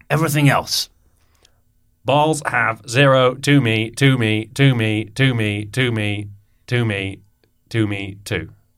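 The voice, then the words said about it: Male robot voice. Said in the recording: “I'm doing quite a male robot voice. I don't think I can do a female robot voice.”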